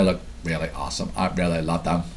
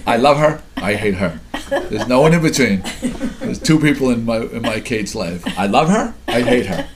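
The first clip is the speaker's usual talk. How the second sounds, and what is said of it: Imitates another person's voice. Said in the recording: “My Kate impersonation”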